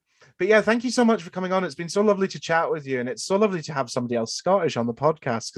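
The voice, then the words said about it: English accent. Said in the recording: “I've got the English accent”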